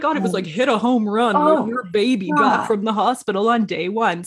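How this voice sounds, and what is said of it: Puts on a silly character voice. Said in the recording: “doing this voice ... The voice is perfect.”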